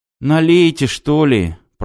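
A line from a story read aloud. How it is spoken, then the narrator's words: Groaned. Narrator (Russian): простонал Костя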